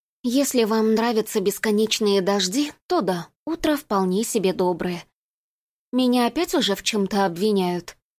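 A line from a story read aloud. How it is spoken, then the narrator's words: Gloomy question. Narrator (Russian): мрачно спросила Пенелопа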